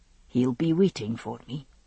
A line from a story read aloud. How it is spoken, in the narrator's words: he said softly